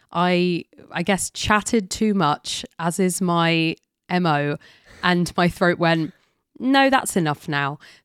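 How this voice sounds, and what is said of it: Husky, hoarse voice. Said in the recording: “tell from my voice, I got laryngitis ... this is how I sound ... the husky, dulcet sounds of my voice”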